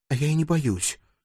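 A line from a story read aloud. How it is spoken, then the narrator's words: Whispered reply. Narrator (Russian): так же шепотом ответила она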